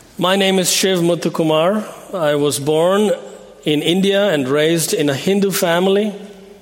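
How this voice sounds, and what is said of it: Speaks English with an accent. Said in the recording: “When a man with an accent gets up on a pulpit to preach”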